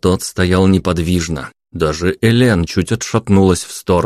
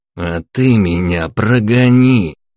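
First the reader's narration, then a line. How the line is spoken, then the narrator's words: Through gritted teeth. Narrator (Russian): процедил Иван сквозь зубы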